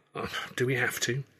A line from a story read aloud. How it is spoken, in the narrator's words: I groaned